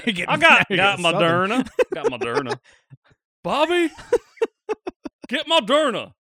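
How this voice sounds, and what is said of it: Put-on Southern accent. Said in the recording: “now sounds Southern.”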